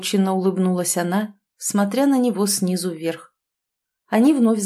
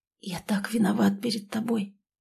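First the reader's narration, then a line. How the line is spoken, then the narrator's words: Young man whispering. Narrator (Russian): прошептал молодой человек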